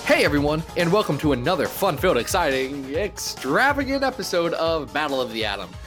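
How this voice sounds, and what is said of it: Hyped shock jock radio host voice. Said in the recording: “I sound like a shock jock radio host today ... put on my podcaster voice”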